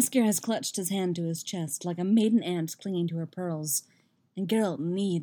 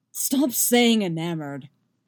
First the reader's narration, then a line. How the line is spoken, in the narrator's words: Geralt snarls